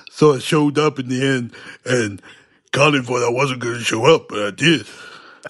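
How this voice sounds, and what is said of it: Imitates another person's voice. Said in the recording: “Probably do my impression again. ... Okay, that was brilliant.”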